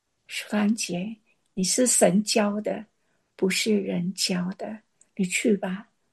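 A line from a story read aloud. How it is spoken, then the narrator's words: Sighing. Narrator (Chinese): 利未叹了一口气说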